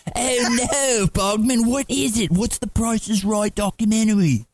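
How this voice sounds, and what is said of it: Terrible put-on English accent. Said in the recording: “your terrible Alda Snow... That terrible English accent”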